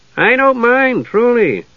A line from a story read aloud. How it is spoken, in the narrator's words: Tass said cheerfully